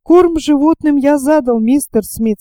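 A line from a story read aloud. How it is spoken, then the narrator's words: Plain. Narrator (Russian): сказал Айртон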